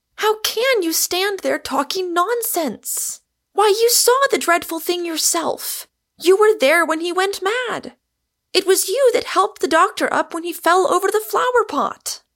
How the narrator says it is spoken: cried Rosamond, wringing her hands

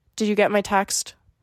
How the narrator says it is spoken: you asked coldly

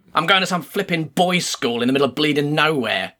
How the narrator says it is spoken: the man grumbled

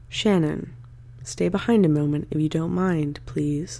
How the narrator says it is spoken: she quietly but clearly said

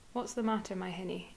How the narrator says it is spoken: it said

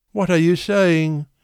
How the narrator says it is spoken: exclaimed, shuddering with joy and with gathering frenzy

